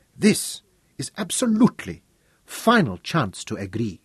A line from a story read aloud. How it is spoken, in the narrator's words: he said